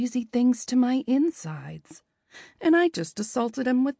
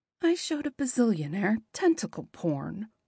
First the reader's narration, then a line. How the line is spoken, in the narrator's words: I mumble